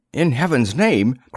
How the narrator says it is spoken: cried Darley

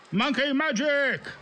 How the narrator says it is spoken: full of kids shouting

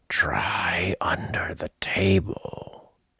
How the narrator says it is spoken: said in a loud whisper

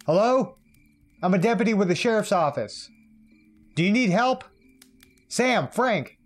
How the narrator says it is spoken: I called out again

